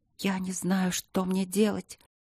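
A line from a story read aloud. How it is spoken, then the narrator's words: Hissing whisper. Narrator (Russian): прошептала свистяще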